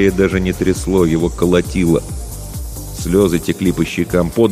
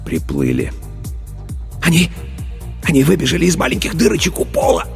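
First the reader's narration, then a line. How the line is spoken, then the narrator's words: Passionate whisper. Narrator (Russian): страстно зашептал Старлей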